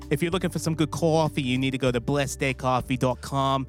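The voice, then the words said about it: Put-on New York accent. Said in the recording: “I'm going to try this in the New York accent again.”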